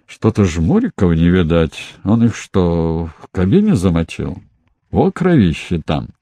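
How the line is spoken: Grumbling. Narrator (Russian): Вольбаш проворчал

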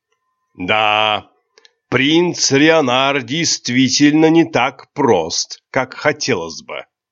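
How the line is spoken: After laughing, amused. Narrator (Russian): отсмеявшись, произнес Ледгар

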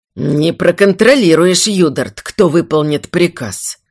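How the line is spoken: Grumbling. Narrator (Russian): проворчал Эстарм

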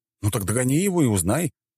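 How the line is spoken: Barked. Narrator (Russian): гаркнул я

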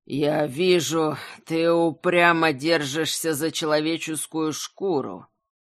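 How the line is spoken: Growled. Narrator (Russian): прорычал белый князь

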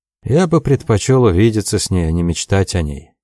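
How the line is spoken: Dejected. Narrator (Russian): уныло сказал Лоусон

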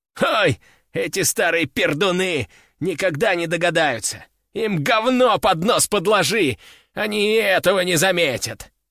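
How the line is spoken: Laughing loudly. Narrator (Russian): расхохотался начальник

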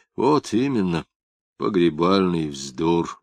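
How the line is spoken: Sighing. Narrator (Russian): вздохнув, сказал Лапшин

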